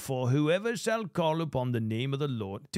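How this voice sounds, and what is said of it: Put-on British accent. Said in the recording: “maybe I should do it in a British accent”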